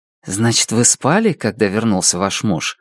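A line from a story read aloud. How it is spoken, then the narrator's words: Gently persistent. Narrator (Russian): мягко гнул свою линию Дебора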